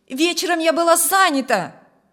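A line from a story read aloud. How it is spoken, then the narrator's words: Shouted after someone. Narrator (Russian): крикнула женщина вдогонку мужу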